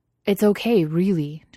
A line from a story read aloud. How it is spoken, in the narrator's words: Justin exclaimed, even though it obviously wasn't okay